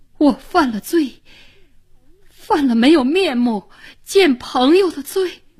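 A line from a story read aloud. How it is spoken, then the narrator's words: Choked, sobbing. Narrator (Chinese): 林志成脸色惨变，语不成声，半天才哭一样地说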